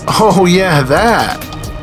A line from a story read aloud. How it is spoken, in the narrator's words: Wendell said, laughing